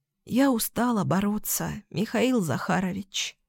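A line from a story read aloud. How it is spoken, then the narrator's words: Weary sigh. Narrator (Russian): вздохнула она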